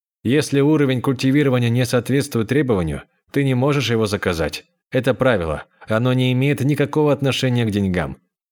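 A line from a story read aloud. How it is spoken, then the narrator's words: Plain. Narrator (Russian): сказал Буфан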